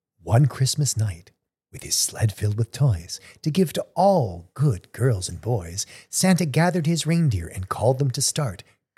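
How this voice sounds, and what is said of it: Formal read-aloud storytelling voice. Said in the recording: “in his readerly voice”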